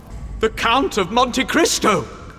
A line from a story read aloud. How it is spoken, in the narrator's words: cried Danglars